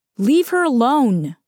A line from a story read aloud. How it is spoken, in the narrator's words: yells out